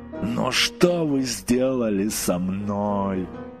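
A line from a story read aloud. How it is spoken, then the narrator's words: Moaning. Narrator (Russian): простонал он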